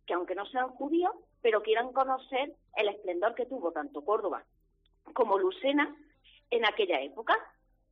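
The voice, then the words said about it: Andalusian Córdoba Spanish accent. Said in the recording (Spanish): “Que me gusta ese acento, ¿verdad? Ese acento que tiene ... de tan de Córdoba”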